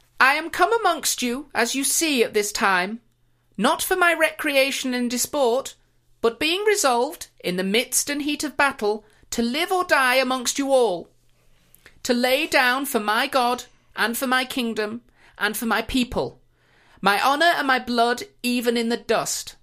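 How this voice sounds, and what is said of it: Put-on regal queen character voice. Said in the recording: “I'll do it in my Queen Elizabeth I voice ... I'm doing it in the Queen Elizabeth I voice ... I've been working on it.”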